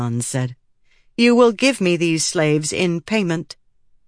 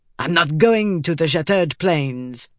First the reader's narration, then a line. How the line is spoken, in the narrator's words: Tavlakov spat